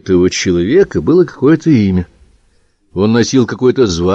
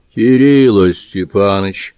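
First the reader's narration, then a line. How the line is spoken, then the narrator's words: Reproachful drawn-out tone. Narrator (Russian): сукоризный протянул карикатурный человек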